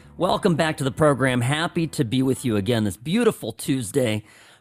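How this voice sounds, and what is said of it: Fading, worn-out voice. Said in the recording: “my voice is officially beginning to fade”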